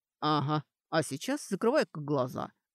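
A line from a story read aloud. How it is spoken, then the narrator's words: Mocking. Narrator (Russian): насмешливо сказал Доран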